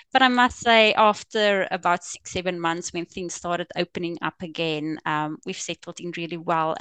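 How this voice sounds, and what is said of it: Afrikaans-accented English. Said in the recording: “as you can probably tell from my accent, we are Afrikaans speaking.”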